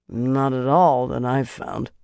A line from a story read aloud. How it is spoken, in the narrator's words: Cordwyn muttered